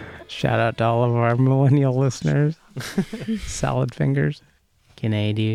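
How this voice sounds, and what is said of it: Usual voice. Nothing is said of it.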